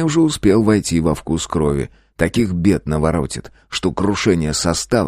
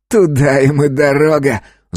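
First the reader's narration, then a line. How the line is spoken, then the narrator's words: Angry snap. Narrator (Russian): зло бросил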